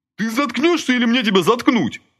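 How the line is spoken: Barked snap. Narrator (Russian): рявкнул Леша

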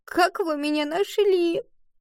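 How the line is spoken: Sobbing. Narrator (Russian): Рыдая

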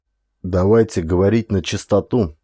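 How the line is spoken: Plain. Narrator (Russian): сказал я

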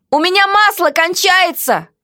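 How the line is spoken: Shouted. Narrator (Russian): крикнула я

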